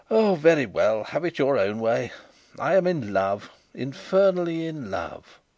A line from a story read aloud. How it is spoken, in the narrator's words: he exclaimed